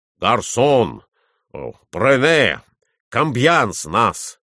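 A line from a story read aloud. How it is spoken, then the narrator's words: Shouting to servant. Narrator (Russian): кричал Николай Иванович слугу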